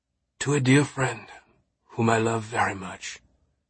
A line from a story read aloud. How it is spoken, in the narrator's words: he replied, his voice heavy with emotion